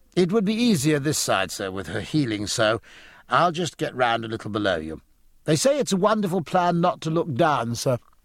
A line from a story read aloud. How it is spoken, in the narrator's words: Mowat laughed cheerfully and said